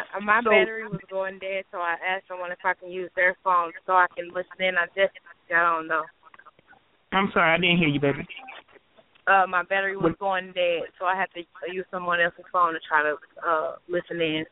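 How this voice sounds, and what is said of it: Southern-sounding twang. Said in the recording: “I can hear that twang in your voice ... Are you from the South?”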